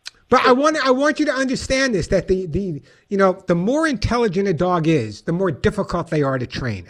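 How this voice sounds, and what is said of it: New York accent. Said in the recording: “It's my New York accent.”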